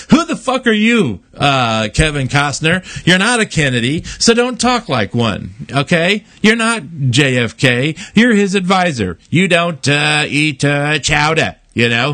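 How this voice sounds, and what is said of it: Bad cartoon mayor impression. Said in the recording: “It was a bad Mayor Quimby impression”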